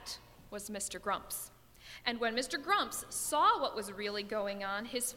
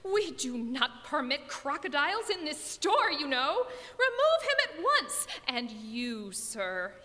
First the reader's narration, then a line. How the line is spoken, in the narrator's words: he gasped